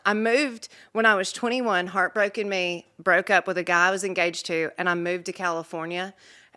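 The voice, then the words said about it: Southern accent. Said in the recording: “all the other waitresses called me ... because of my accent ... people love the accent”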